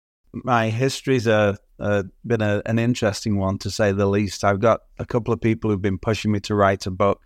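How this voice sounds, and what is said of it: Lovely non-local accent. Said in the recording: “With that lovely accent, I'm going to assume you are not a native Torontonian.”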